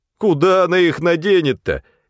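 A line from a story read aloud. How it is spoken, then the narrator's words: Cheerful teasing questions. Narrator (Russian): весело пытали Сергея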